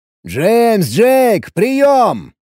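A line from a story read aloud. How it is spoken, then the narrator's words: Shouting into radio. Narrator (Russian): крикнул я не то в рацию, не то в соседнюю комнату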